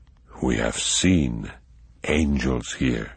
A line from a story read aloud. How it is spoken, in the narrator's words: he said quietly